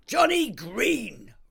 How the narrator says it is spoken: roared Mrs

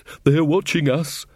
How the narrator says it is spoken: panted Taylor

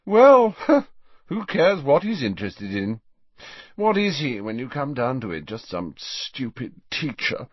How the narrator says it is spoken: Malfoy yawned ostentatiously

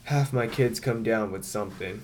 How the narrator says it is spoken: moans

